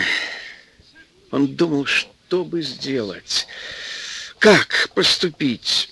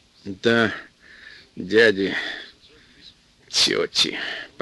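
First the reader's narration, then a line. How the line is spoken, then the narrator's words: Mumble. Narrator (Russian): пробормотал Сашка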